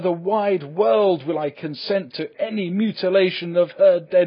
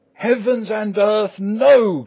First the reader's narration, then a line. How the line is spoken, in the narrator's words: cried Arthur in a storm of passion